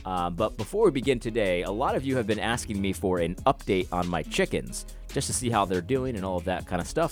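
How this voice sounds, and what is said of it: Stuffy, congested voice. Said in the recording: “I sound a little stuffy. ... I am not feeling that well”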